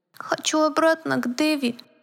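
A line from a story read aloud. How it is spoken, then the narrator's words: Teddy bear's thin voice. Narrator (Russian): произнес плюшевый мишка тоненьким голоском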